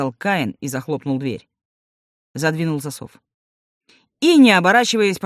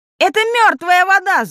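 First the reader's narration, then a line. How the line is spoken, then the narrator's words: Gnome yelling. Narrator (Russian): завопил гном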